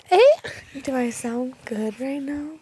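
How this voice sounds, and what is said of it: Quiet, sultry sexy voice. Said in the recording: “I'm very quiet right now... We got quiet... We got so quiet... Is this a sexy voice?”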